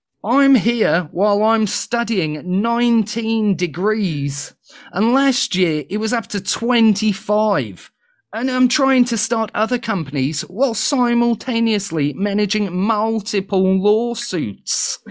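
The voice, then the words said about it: Bad put-on accent, not New Zealand. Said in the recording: “The accent is terrible. ... I was trying to see if it's New Zealand accent, but it's not. ... It was a something.”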